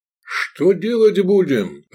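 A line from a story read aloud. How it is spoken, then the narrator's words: Shouted. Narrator (Russian): прокричал он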